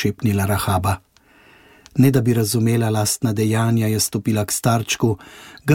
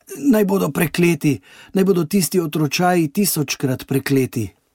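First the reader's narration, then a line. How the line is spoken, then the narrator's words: Weak trembling call. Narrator (Slovenian): s tresočimi prsti, slabotno, zaklical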